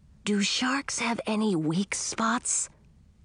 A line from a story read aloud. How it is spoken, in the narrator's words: whispered Edric